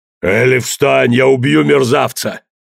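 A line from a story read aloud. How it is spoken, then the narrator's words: Growling. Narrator (Russian): зарычал труп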